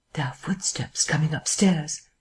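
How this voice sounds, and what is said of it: Low, hushed voice. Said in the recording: “he said in a low voice.”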